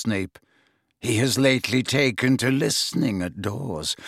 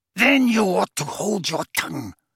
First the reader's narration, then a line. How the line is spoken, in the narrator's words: snarled Bellatrix